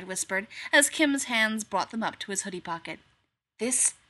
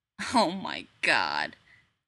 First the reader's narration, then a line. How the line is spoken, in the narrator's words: Kim muttered